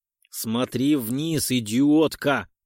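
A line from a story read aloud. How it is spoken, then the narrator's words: Growl close to ear. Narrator (Russian): прорычал над ухом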